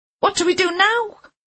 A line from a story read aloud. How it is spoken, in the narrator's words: Sean screeched